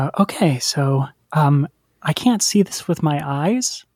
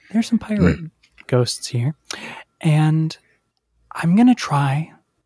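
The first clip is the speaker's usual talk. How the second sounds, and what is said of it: Public radio announcer voice. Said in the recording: “I like trying to get the NPR voice out.”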